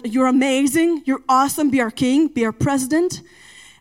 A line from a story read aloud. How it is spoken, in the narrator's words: they shouted